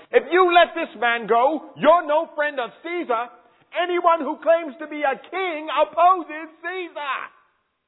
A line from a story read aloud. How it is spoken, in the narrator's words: the Jews kept shouting